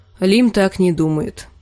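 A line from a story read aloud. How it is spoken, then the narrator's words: Gloomy. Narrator (Russian): мрачно сказала Арья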